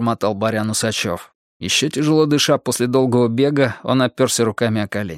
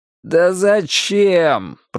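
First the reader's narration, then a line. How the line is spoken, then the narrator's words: Groan. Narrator (Russian): простонал охотник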